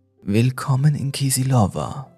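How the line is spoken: Rough voice. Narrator (German): sagte er mit rauer Stimme

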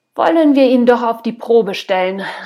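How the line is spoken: Old woman calling. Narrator (German): rief eine weißhaarige Frau

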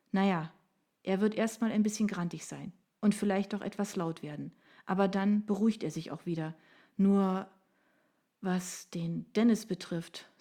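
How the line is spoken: Sighed. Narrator (German): seufzte

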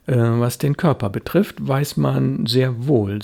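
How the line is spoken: Plain. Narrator (German): sagte Léa

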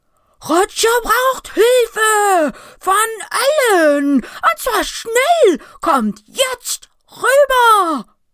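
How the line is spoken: Piercing full-throated roar. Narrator (German): atmet tief ein und brüllt aus vollem Halse mit durchdringender Stimme

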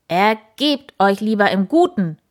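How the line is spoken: Calling out. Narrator (German): rief er

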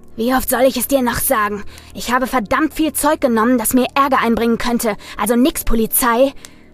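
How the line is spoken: Growled. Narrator (German): knurrte Andy

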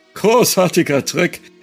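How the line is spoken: Forced cheerful call. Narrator (German): rief er also forciert fröhlich

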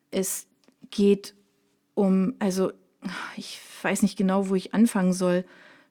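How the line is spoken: Stammering to himself. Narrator (German): stottert er vor sich hin

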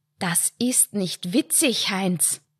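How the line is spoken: Hiss. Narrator (German): zischte Lydia

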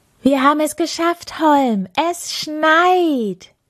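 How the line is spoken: Proud shout. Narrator (German): rief der kleine Schneemann stolz

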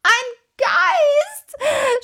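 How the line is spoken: Wild scream. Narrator (German): schrie Tommy wild

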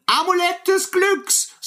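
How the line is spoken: As loud as possible. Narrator (German): so laut wie er nur konnte

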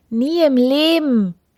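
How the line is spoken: Queen calling out. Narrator (German): rief die Königin

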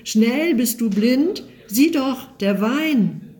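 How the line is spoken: Cries out. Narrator (German): schreit auf

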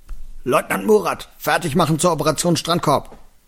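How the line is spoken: Boy bellowing back. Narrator (German): Der dunklere Junge brüllte zurück

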